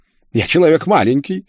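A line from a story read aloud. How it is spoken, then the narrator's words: Angry, curt. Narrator (Russian): зло бросил Мануэль из своей камеры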